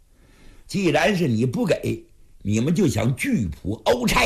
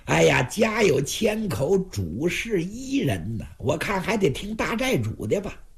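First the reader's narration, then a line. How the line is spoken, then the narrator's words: With a smile. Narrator (Chinese): 四爷捻然一笑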